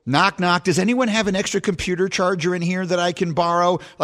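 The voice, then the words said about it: Imitates another person's voice. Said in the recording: “doing a terrible imitation of John Mulaney”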